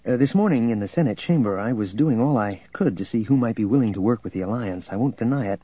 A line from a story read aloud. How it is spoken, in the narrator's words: he went on quickly